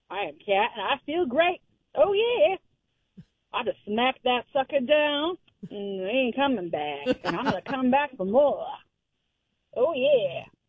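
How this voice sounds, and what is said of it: Put-on southern accent. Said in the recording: “I got a southern accent.”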